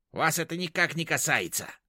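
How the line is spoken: Snapping retort. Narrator (Russian): огрызнулся Вилли

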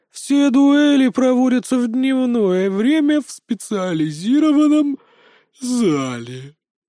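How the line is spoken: Sleepy yawning old voice. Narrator (Russian): сонно зевнув, ответила старая черепаха

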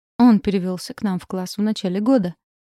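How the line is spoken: Plain. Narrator (Russian): ответила я

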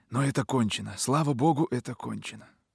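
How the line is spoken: Whispered. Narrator (Russian): прошептал он

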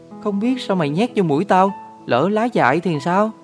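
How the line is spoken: Smiling, reassuring. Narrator (Vietnamese): Hà Lan mỉm cười trấn an tôi

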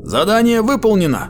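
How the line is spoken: Shouting. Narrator (Russian): прокричал он

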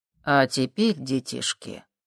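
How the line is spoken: Calm. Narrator (Russian): спокойно проговорил Юрий

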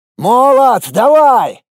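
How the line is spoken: Yelling. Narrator (Russian): заорал я

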